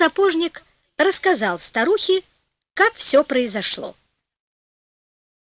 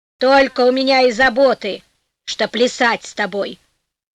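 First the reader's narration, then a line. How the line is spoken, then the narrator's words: Old woman, angry reply. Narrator (Russian): сердито ответила старуха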